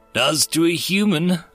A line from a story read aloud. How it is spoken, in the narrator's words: Grimes replied cheerfully